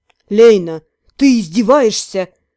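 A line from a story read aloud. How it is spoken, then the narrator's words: Growled. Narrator (Russian): рыкнул Творец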